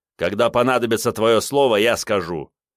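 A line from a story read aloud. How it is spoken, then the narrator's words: Angry, through gritted teeth. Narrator (Russian): зло скрежетнул зубами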